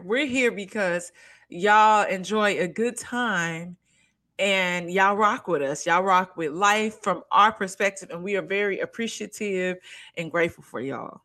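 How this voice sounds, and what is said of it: Toned-down country Southern accent. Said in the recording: “I tried to say that in my less like countryest accent ever. I felt like Beyonce's accent and Kelly's accent was coming through ... I'm trying to dial it back ... Cause I am country. I'm country.”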